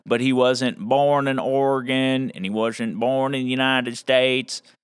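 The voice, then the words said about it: Exaggerated put-on rural accent. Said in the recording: “I'm using that kind of accent that is kind of ridiculous because I'm kind of a hillbilly myself”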